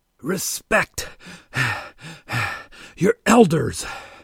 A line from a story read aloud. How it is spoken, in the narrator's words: Wally said, panting